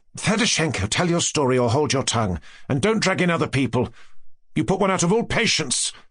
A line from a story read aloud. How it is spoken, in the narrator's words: said Nastasya Philipovna sharply and irritably